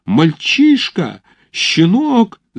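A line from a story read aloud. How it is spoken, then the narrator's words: Shrieking. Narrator (Russian): завизжал Покорни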